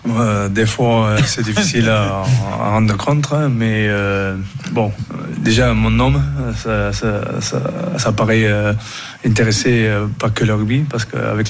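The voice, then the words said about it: Southwestern French accent. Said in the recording (French): “Il a l'accent du sud-ouest”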